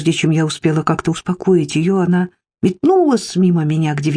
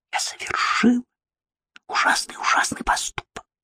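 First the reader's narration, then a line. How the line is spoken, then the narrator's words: Whispered again. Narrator (Russian): Она снова прошептала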